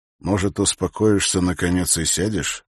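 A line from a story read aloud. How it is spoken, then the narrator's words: Quiet question. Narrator (Russian): спросил он негромко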